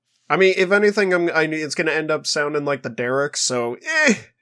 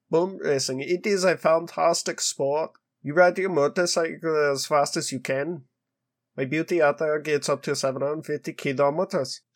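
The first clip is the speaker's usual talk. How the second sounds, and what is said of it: Poorly done put-on accent. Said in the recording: “I'm really doing terrible in this accent.”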